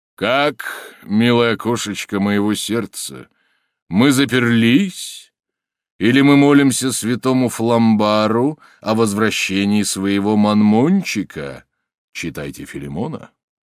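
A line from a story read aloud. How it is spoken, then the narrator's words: Rough bass voice. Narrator (Russian): он грубым басом заговорил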